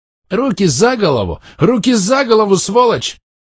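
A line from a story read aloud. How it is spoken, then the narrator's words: Angry yelling. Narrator (Russian): Заорал он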